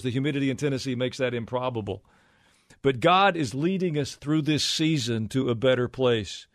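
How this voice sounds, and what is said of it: Slight Southern hillbilly accent. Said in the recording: “I may have a little bit of a hillbilly accent”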